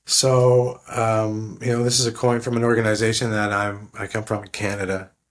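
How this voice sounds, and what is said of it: Slightly raspy voice. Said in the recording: “you can hear my voice is a bit yeah. the raspier ... I guess a little bit off.”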